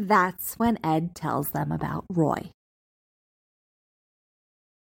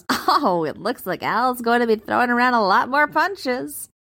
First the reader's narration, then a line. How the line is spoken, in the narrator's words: Pinocchio cackles